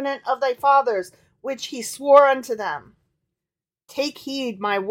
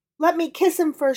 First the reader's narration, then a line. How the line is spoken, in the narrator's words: she pleaded